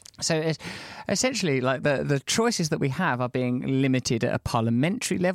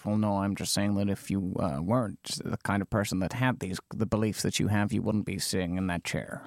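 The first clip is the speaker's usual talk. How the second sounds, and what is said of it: Imitates another person's voice. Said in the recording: “that's my Noam Chomsky impression, with which I am pleased.”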